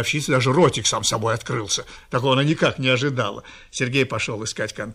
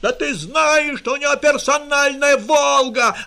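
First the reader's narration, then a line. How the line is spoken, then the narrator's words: Yelling. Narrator (Russian): орал Рашпиль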